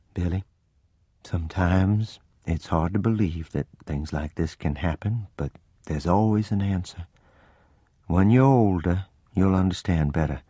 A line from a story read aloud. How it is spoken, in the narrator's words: in a gentle voice she said